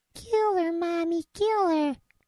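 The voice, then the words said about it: High-pitched boyish voice. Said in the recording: “I sound like my balls haven't dropped yet.”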